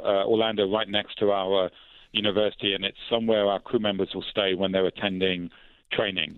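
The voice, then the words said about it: British London accent. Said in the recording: “your accent ... Where are you from originally? Is it London? ... In the United Kingdom”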